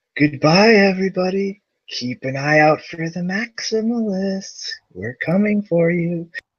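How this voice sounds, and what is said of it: Spooky voice. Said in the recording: “do us a spooky voice for our outro”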